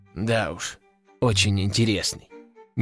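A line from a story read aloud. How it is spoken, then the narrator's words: Displeased mumbling. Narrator (Russian): недовольно пробурчал император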